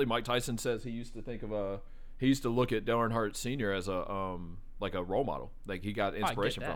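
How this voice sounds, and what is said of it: Usual voice. Nothing is said of it.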